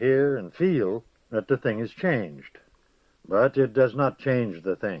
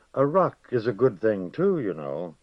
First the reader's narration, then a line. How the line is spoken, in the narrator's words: he said, speaking less gravely